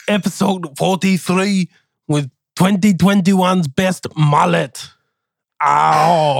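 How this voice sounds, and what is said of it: Usual voice. Nothing is said of it.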